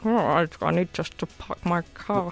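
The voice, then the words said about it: James Bond impression. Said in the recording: “Was that an impression of James Bond? ... It's not bad. It was a little bit more of that. ... Sean Connery going on there.”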